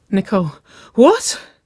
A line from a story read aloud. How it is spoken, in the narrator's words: Waverly gasped, a low groan rumbling in her chest at the implication